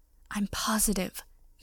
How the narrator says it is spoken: Pansy whispered a little too loudly

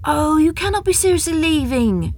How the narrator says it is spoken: Ashika cried

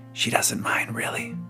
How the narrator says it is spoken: she whispered

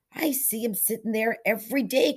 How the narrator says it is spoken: cried Arthur

